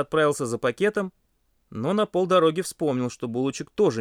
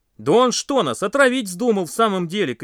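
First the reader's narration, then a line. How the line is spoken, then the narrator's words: Shouting by campfire. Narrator (Russian): кричали у костра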